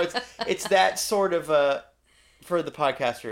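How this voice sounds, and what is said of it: Usual voice. Nothing is said of it.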